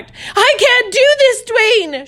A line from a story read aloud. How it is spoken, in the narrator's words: She screamed